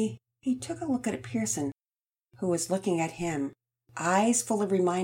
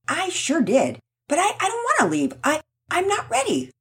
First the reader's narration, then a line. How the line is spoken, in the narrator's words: Rocket shouted